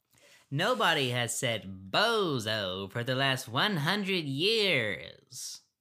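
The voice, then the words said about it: Imitates another person's voice. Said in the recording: “I'll do my best impression.”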